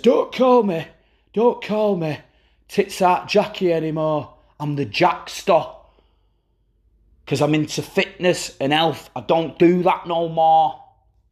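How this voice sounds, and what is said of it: Exaggerated Yorkshire accent drifting to Manchester. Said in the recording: “I have a accent morph there because I thought, hang on, I'm going to start off and I'm just doing like an emphasised Yorkshire. Ended up at Manchester by the end.”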